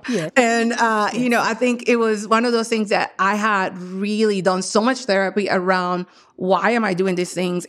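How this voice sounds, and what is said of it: Non-native English accent. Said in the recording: “I'm an immigrant, obviously, because of my accent.”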